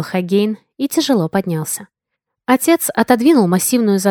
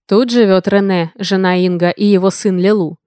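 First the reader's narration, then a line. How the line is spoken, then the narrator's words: Deep bass, older man. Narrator (Russian): пробасил усатый глава стражей, дядька старше остальных и чуть грузнее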